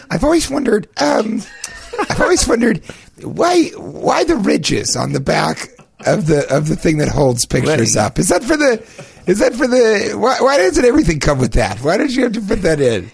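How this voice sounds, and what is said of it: Imitates another person's voice. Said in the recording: “Is that an accurate impersonation of me?”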